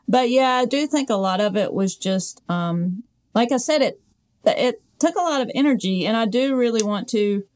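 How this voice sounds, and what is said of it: Southern American accent. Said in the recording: “a Southern accent. I speak with a Southern accent. I'm very, very Southern ... this is how I sound”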